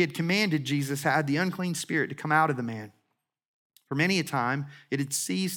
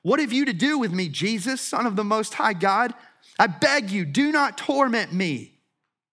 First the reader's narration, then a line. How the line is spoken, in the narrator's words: this man, he cried out and said with a loud voice